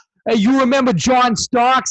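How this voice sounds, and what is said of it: Attempted Brooklyn accent sounding Bostonian. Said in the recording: “talking like a Boston. I was trying to do a Brooklyn accent.”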